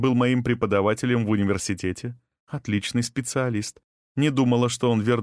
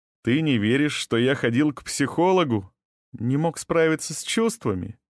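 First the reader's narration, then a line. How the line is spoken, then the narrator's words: Snide interjection. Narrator (Russian): ехидно вставила Сирена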